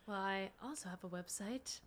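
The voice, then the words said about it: Calm public-radio announcer voice. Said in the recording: “I don't know why I'm like talking in my like NPR voice. ... Back to normal voice.”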